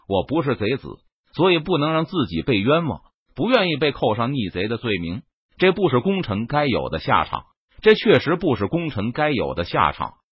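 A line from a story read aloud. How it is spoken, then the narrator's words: Sighing after a pause. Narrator (Chinese): 郑成功停了停，叹了口气，然后再次开口对张黄岩说道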